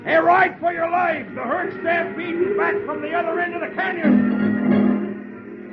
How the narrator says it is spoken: Rocky shouts

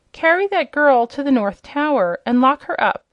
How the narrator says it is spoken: cried the princess

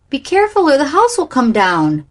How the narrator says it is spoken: cried Flossie

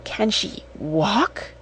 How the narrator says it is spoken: she asked breathlessly

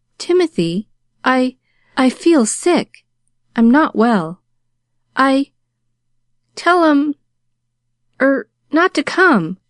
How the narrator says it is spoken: she faltered

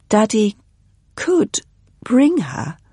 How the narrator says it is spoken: said Katie hesitantly

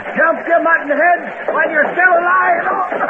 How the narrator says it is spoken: Cursing Dakota for opening fire, Hard Luck shouted

